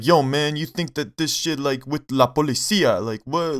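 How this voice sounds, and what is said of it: Exaggerated bad Hispanic accent. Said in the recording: “doing a horrible like Hispanic accent.”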